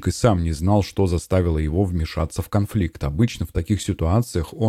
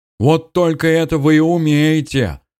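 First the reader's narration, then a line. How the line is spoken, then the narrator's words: Man yelling. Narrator (Russian): заорал мужчина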